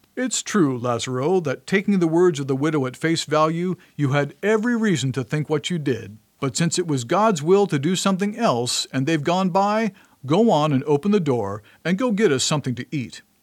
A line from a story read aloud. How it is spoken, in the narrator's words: when he'd had his belly full of laughter, my good master said to me